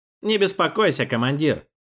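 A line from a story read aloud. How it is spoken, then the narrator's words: Wry snort. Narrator (Russian): хмыкнул Рубин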